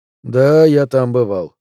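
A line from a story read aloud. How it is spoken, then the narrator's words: Muffled reply. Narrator (Russian): глухо ответил он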